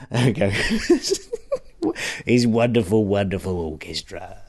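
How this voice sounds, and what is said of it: Imitates another person's voice. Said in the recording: “That's my Bruce Forsyth impression.”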